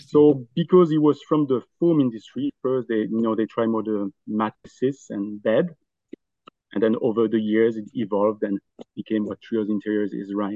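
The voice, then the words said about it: Noticeable foreign accent. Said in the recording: “we hear your accent ... home is Belgium”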